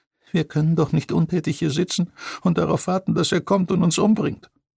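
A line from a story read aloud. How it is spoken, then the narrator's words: Whining lament. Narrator (German): jammerte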